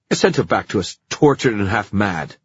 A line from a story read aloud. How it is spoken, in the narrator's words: snapped the younger Blackthorne